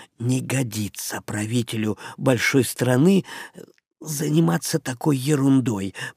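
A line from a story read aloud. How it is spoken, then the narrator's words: Man whispering. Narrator (Russian): прошептал Ишива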